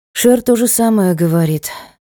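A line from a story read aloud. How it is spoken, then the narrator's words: Sighing. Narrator (Russian): вздохнула я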